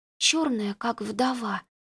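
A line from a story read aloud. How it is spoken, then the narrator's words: Whisper. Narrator (Russian): прошептала Лютина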